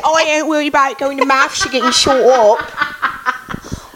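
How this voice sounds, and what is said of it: Mock English accent. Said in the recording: “Do like a mean impression of an English person.”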